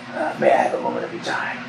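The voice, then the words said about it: Hoarse character voice. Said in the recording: “In a hoarse voice”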